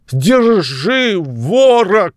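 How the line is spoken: Shouting. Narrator (Russian): крикнул он

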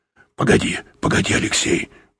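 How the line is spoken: Muttered. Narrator (Russian): пробормотал Юрковский

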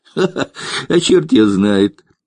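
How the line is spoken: Laughing. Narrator (Russian): рассмеялся цыган

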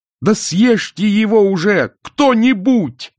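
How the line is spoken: Yelling. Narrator (Russian): заорал Мор

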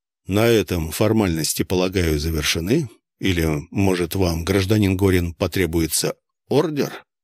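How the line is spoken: Quiet, measured. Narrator (Russian): Майор Серов говорил тихо, размеренно

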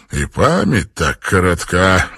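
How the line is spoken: Sighing. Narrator (Russian): вздохнул сэр Чарльз Пенниворт

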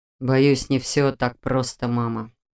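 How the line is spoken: Sighing. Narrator (Russian): вздохнул Раал

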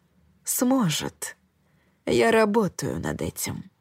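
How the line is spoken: Soft reply. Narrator (Russian): мягко отозвался Джулиан

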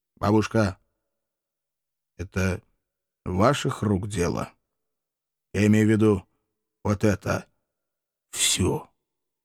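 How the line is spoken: Quiet question. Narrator (Russian): тихо спросил

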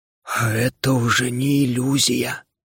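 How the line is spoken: Stunned whisper. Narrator (Russian): ошарашенно прошептал дух

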